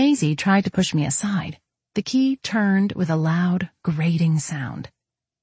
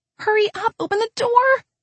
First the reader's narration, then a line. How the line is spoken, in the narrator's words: Maisie cried